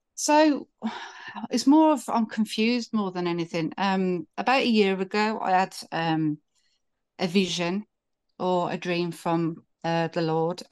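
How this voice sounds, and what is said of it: UK accent. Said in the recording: “I love your accent, by the way. ... I'm from the UK.”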